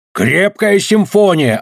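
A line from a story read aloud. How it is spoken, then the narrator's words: Yelling. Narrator (Russian): орал он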